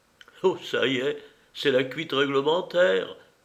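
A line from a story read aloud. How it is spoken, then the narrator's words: Cheerful whisper. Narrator (French): chuchota allègrement le voisin de Schweik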